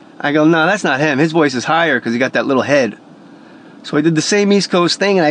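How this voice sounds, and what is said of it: Usual voice. Nothing is said of it.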